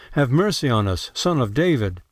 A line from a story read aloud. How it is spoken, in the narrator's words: two blind men cried out